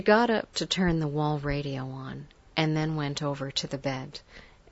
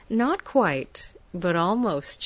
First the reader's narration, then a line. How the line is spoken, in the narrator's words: she laughed